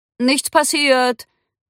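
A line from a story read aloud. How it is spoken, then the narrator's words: Calling out. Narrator (German): rief er Cindy zu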